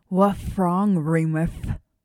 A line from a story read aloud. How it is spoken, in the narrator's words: Peter slurred through his gigantic teeth